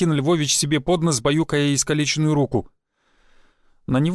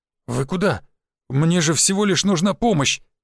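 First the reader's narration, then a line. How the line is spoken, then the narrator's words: Bewildered whisper. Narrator (Russian): растерянно прошептал Константин Львович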